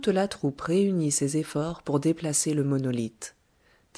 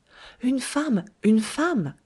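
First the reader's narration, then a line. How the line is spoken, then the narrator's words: Exclaimed. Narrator (French): s'écria-t-il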